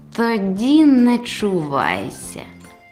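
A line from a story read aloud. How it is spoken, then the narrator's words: Hissing, then repeated. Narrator (Ukrainian): засичав, а потім сказав іще раз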